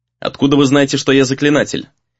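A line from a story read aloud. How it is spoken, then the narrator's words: Dry questioning. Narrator (Russian): сухо спросил он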